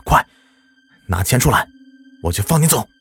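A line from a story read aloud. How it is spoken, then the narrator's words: Scared but bold shout. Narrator (Chinese): 赵大军就觉得浑身冷极了，不过还是壮着胆子喊道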